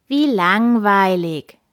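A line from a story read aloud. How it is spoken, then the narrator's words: Plain. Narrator (German): sagte Koks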